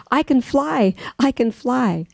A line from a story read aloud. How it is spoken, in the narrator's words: the little bird exclaimed